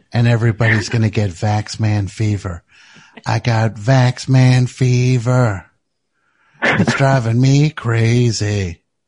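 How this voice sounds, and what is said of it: Character voice of Vax Man. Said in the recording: “that's not an impression of Mike... That's an impression of Vax Man”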